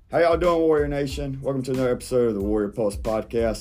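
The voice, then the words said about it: Southern US Georgia accent. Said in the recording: “I'm from the great state of Georgia, South Georgia, born and raised. To answer y'all's accent question”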